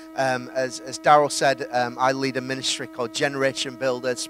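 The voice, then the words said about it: Yorkshire English accent. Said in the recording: “a Yorkshire accent”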